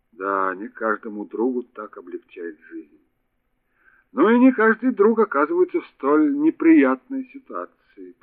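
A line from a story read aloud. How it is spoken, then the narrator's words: Muttered. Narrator (Russian): пробормотал комиссар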